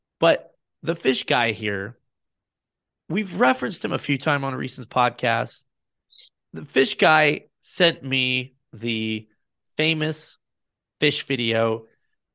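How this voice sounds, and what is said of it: Hoarse, strained voice. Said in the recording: “I'm losing my voice,”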